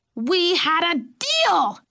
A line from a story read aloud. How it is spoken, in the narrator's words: Eloise screeched